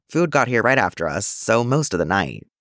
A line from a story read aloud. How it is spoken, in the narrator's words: Jason said, his words a low rumble in his effort to stay quiet